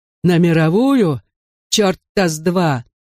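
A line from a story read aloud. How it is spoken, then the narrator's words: Growled reply. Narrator (Russian): рыкнул в ответ Большое Дуло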